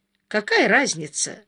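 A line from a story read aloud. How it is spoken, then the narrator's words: Calm. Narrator (Russian): спокойно сказал Марк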